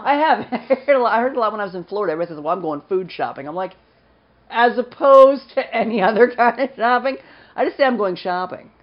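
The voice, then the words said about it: Slight regional accent. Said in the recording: “It's my accent again. ... I at least admit that I have a slight accent.”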